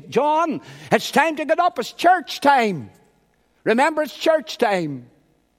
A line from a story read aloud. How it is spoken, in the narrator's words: His mother shouted up and said to him